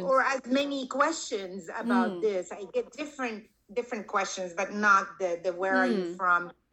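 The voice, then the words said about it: Speaks English with a foreign accent. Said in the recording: “your accent is different than Black or Hispanic... with my accent, which is, you know, part of immigration”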